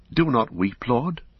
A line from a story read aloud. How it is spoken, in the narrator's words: he stammered